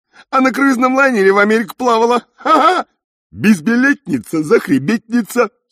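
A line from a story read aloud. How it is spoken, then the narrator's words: Giggling seahorses. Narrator (Russian): хихикали морские коньки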